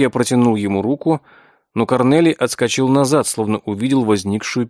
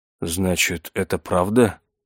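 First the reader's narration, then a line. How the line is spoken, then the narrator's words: Stunned mutter. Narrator (Russian): пробормотал он, ошалело глядя на Зиру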